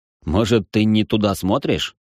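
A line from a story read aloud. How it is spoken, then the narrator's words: Amused snort. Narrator (Russian): хмыкнул я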